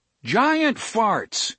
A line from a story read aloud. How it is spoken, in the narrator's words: Cuthbert shouted